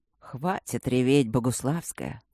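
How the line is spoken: Muffled soft ironic weary command. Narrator (Russian): Приглушенная очень мягко скомандовала ироничным и усталым голосом лорда Макса

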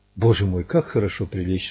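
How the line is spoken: Sigh. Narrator (Russian): вздохнула

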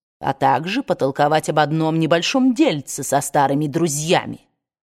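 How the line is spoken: Hissed. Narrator (Russian): прошипел он

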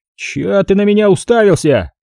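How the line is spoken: Sudden rude retort. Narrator (Russian): Неожиданно грубо отреагировал Шутов

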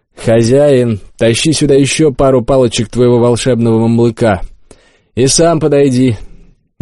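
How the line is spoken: Loud. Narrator (Russian): громко сказал я

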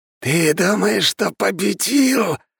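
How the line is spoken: Angry hiss. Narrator (Russian): Со злостью прошипел он

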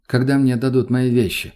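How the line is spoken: Plain. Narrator (Russian): спросил он

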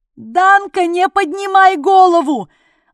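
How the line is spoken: Incessant shouting. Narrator (Russian): орал Дятлов безостановочно

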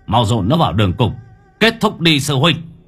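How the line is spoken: Harsh, gritted voice. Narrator (Vietnamese): Bác Tường lúc này gằn giọng

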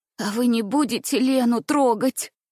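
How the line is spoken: Sobbing child whisper. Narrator (Russian): всхлипывая, прошептал мальчик

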